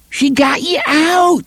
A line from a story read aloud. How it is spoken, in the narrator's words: Shimi cried